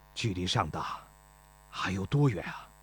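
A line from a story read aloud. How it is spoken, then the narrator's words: Breathless question. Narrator (Chinese): 孙膑喘了口气，问钟离春说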